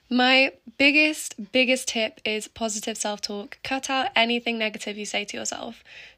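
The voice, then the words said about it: Strained, sore-sounding voice. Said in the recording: “I don't know what's going on with my voice. It is really annoying me... my voice is just... It's really hurting to talk.”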